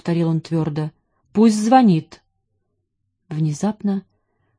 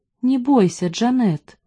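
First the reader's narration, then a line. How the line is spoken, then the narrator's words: Tender voice. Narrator (Russian): сказал он нежным голосом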